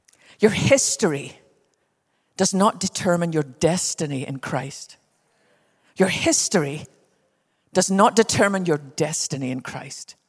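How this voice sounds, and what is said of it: Scottish accent. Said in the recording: “You can probably tell by my accent that even though we live in Texas, I didn't start there. I was born on the west coast of Scotland.”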